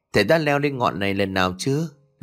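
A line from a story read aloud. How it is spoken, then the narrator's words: Smiling question. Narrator (Vietnamese): Hoa mỉm cười rồi hỏi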